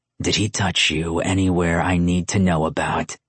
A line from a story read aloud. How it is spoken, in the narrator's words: Luca growled, his possessiveness showing